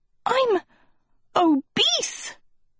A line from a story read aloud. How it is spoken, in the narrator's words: Sophie gasped